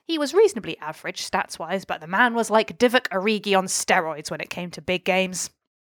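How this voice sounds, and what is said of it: Put-on accent. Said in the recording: “Wild horses couldn't have stopped you doing that accent.”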